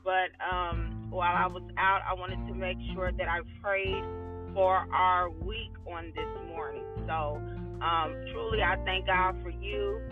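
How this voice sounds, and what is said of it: Slightly odd, numb-mouthed speech. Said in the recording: “I sound a little weird ... I went to the dentist this morning, and so I'm still kind of numb”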